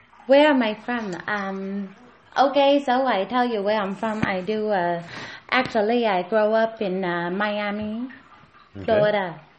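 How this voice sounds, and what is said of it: Hong Kong-influenced English accent. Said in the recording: “You were born in Florida? And you have this accent? ... My mom, my dad, they from Hong Kong, so that when they come here, they talk like that”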